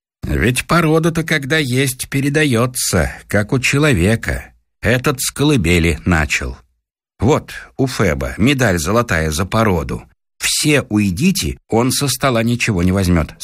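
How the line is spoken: Plain. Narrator (Russian): сказал Караулов

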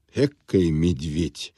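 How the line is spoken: Clerk's muttering. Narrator (Russian): пробормотал ему вслед главный конторщик

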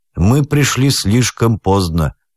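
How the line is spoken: Gloomy remark. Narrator (Russian): мрачно заметил адвокат

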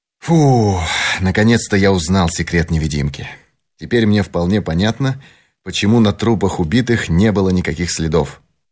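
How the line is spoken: Triumphant. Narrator (Russian): торжествующим тоном произнес

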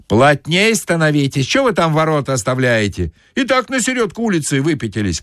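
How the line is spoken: Shout from behind. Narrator (Russian): крикнули сзади

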